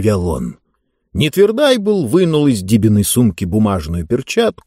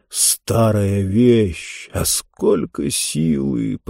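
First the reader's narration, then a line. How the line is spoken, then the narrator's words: Muttered. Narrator (Russian): пробормотал он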